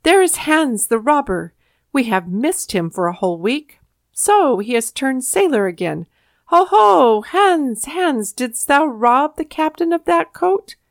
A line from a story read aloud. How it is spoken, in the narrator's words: cried, pointing their fingers at him